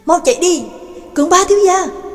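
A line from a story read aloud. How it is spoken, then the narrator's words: Loud urgent shout. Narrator (Vietnamese): Trương Lập không nhẫn nhịn được nữa, lớn tiếng hét lên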